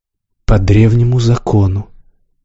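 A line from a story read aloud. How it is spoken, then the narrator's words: Soft. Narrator (Russian): мягко сказал Развияр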